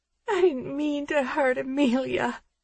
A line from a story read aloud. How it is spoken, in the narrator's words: she sobs